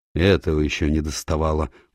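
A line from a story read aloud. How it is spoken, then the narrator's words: Sullen mutter. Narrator (Russian): угрюмо пробурчала Иринья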